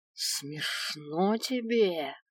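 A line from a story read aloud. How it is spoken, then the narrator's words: Hissed through teeth. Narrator (Russian): сквозь зубы прошипел Свен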